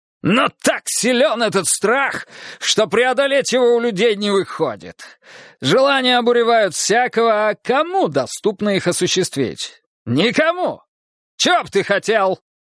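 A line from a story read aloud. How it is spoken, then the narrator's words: Sudden shout. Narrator (Russian): Неожиданно крикнул он на Снежка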